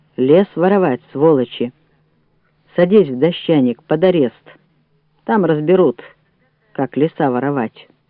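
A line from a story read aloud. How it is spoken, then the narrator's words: Stern declaration. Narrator (Russian): строго заявил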